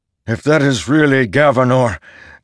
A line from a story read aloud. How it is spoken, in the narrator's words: Dalinar shouted